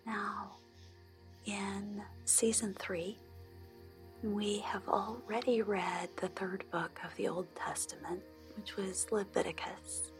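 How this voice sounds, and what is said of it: Soft, gentle speaking voice. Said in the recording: “I read a chapter of the Bible in a soft voice.”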